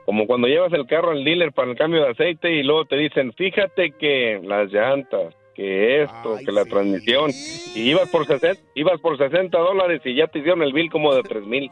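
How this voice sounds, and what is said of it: Deep radio-announcer male voice. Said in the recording (Spanish): “qué voz de hombre ... Mira, tiene voz de locutor”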